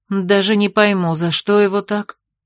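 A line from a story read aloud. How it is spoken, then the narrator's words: Upset sigh. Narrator (Russian): огорченно вздохнула герцогиня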